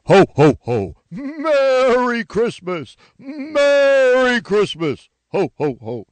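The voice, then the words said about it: Santa Claus character voice. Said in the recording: “my Santa impression ... that's pretty good”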